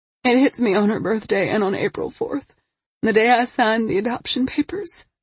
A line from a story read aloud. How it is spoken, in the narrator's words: she said between sobs